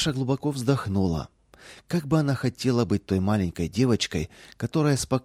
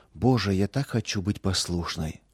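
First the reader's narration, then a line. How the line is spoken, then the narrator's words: Whisper. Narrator (Russian): шептала она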